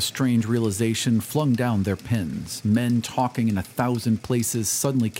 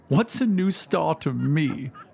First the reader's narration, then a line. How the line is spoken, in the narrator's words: cried the weeping woman